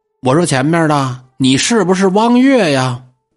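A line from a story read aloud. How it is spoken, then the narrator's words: Familiar voice calling. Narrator (Chinese): 有人叫他的名字，而且这声音特别的熟悉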